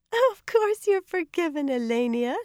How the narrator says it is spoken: she laughed

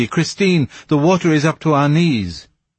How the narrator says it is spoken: cried Monsieur de Chagny

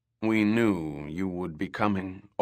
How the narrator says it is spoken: Orak Tho said

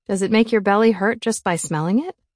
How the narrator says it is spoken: She giggled

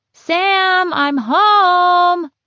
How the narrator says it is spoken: Connor's happy shout

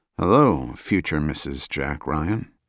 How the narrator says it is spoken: Jack muttered

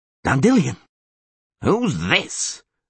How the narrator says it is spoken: Neville growled

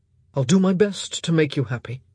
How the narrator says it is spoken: he said gruffly

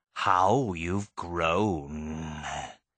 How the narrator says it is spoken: he hissed

